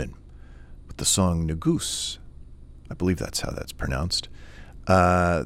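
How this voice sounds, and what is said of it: Usual voice. Nothing is said of it.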